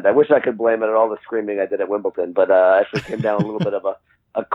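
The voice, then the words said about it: Hoarse, congested, croaky voice. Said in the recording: “my voice is not at 100%... cold virus, sniffly kind of thing... the cross between Barry White and Kermit the Frog that I might be sounding like right now”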